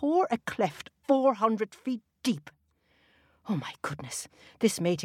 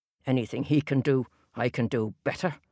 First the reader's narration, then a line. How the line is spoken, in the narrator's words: muttered the giant